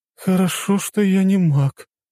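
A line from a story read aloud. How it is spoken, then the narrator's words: Relieved exhale, young woman. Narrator (Russian): девушка облегченно выдохнула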